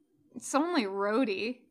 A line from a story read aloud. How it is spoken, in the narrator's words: he mumbles